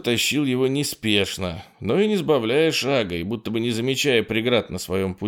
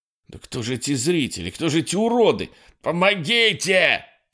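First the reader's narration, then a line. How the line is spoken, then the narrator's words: Panicked yelling. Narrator (Russian): заорал он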